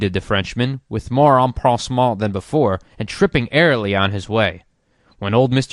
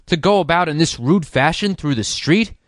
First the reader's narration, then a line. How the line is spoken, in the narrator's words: King, angrily